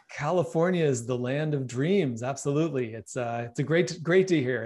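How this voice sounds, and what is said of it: American accent. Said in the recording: “that fantastic accent ... I am in the exotic California”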